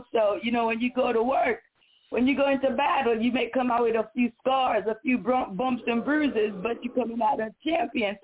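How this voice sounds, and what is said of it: Raspy, strained voice. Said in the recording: “My voice is a little raspy today... I exerted a little strength, so my voice is a little gone today”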